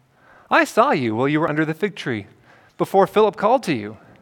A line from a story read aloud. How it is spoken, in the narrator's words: Jesus answered him calmly